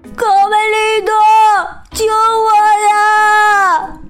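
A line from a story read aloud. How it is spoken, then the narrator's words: Desperate shout. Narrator (Chinese): 贝利奥紧紧的抱住树干，大喊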